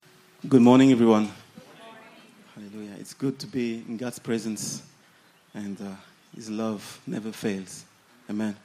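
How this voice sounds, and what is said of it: Tired, worn voice. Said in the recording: “as you can hear, my voice is a little bit tired ... So excuse me for my voice already.”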